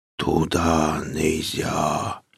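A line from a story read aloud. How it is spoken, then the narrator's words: Drawn-out guttural whisper. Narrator (Russian): протяжный то ли шепот, то ли глухой утробный голос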